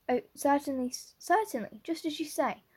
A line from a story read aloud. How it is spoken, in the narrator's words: stammered unhappy Matthew